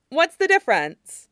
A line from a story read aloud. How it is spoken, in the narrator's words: Mian Mian asks quickly